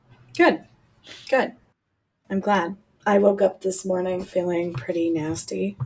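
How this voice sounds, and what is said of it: Sick, under-the-weather voice. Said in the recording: “I'm sure that you can hear it in my voice. My son is also sick.”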